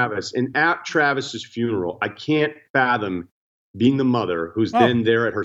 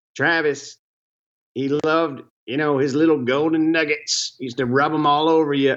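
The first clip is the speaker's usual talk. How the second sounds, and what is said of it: Oklahoma-accented Joe Exotic impression. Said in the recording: “Why'd you do the voice now? ... And you bust out the Oklahoma voice.”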